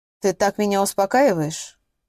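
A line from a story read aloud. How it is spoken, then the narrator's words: Dry question. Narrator (Russian): сухо поинтересовалась Соня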